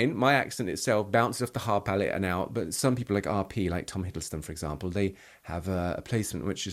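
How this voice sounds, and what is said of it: Usual voice. Nothing is said of it.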